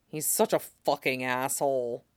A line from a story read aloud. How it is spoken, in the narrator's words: Jason grumbled